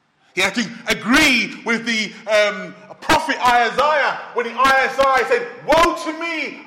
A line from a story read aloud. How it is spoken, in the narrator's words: I cried